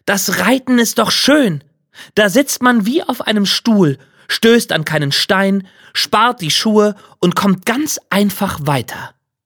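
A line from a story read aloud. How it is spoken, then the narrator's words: Spoken loudly. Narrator (German): sprach laut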